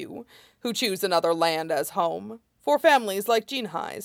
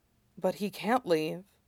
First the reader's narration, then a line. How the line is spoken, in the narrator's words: Amaya whispered